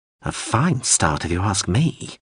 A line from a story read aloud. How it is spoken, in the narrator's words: the drone muttered